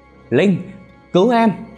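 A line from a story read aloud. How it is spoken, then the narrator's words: Desperate scream. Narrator (Vietnamese): Tiếng hét của Nam vang lên, tràn ngập tuyệt vọng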